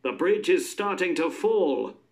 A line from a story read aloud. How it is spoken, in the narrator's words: people shouted